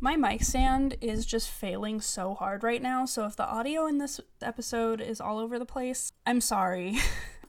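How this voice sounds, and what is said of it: Tired, strained voice. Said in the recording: “My voice is dying.”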